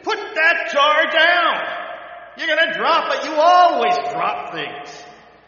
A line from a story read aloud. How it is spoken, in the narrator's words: she screamed at him